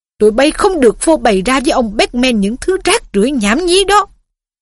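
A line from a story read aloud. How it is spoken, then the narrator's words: Hissing. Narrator (Vietnamese): Percy rít lên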